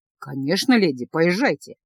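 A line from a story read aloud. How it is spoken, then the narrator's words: Calm vampire, restrained surprise. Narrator (Russian): спокойно сказал вампир, сдерживая свое удивление такой просьбой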